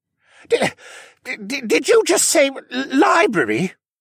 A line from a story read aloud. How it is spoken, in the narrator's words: Jenner spluttered